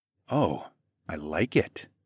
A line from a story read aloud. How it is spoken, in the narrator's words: I whispered